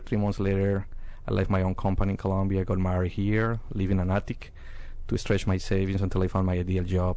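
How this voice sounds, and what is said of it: Colombian Spanish accent. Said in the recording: “As you can see my accent, I'm from Colombia.”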